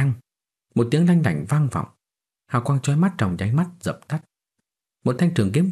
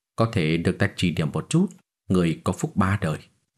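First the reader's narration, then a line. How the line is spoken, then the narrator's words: Casual muttering. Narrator (Vietnamese): hắn trong miệng nói lẩm bẩm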